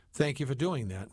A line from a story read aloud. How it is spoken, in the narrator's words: McBrady said